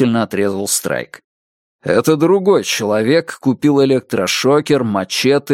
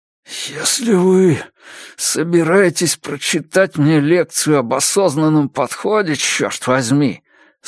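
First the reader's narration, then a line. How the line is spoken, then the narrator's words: Fierce hiss. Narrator (Russian): свирепо прошипел Джош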